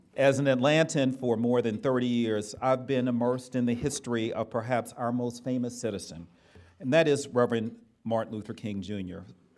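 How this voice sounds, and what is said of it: Southern US accent. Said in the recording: “As you can tell from my voice, I'm definitely a child of the South.”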